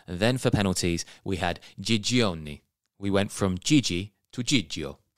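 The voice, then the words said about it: Put-on Italian accent. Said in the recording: “my Italian accent”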